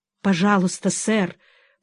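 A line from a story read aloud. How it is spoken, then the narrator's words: Dejected whisper. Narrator (Russian): просит мистер Снегсби удрученным шепотом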